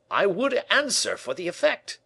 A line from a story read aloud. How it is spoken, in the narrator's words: cried Lebrun